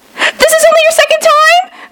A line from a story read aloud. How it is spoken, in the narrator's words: Maggie shrieked